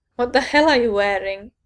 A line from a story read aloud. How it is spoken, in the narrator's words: Richter asked, trying unsuccessfully not to laugh